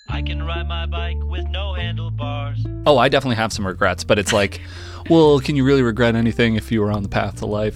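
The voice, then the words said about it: Dopey, dumb-sounding silly voice. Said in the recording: “stupid voice ... I think that was a dopey voice.”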